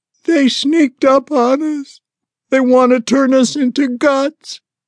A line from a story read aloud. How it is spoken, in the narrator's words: Sally cried